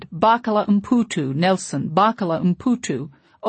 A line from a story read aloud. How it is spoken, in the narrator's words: over and over like a poor starving dog that's been whining so long it doesn't know how to stop